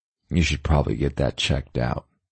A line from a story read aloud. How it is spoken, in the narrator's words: Rego muttered